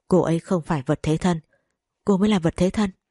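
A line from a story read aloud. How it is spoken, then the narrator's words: Cold. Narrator (Vietnamese): Mộc Du Dương lạnh lùng nói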